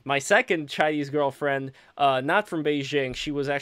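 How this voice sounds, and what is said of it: Usual voice. Nothing is said of it.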